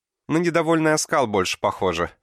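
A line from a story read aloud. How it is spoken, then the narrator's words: Laughing young woman. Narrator (Russian): рассмеялась девушка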